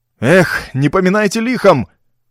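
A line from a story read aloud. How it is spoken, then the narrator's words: Breathless shout. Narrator (Russian): крикнул, задыхаясь, Ровертон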